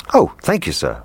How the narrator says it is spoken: replied the cook

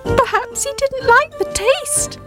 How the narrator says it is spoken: Squeak shouted cheekily

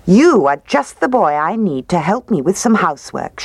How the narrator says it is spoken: she said

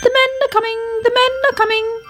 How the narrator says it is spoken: he chirped anxiously

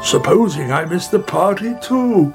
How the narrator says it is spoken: cried

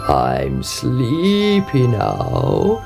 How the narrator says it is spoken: he croaked

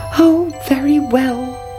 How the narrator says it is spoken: cried the princess

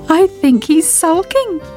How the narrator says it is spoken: giggled Sybil

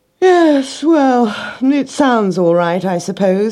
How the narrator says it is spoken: he yawned

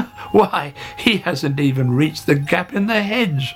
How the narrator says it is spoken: laughed Hare

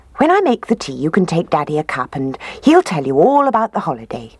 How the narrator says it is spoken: she said

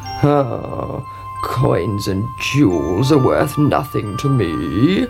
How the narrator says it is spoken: croaked the frog

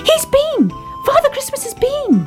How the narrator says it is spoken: cried Baby Ted

